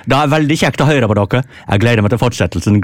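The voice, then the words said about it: Unconvincing put-on Norwegian regional dialect. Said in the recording (Norwegian): “ta kvinneherrads dialekt ... Jeg aner jo ikke hva slags dialekt det der er, men jeg er ganske sikker på at det ikke er kvinner”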